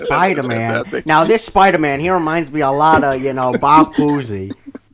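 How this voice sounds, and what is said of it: Imitates another person's voice. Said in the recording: “that wonderful impersonation”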